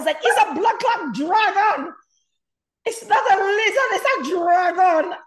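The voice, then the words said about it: Screamed put-on Jamaican accent. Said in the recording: “started screaming in a Jamaican accent”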